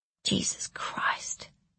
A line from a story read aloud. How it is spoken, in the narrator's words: she said softly to herself